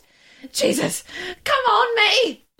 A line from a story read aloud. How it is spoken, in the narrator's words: I gasp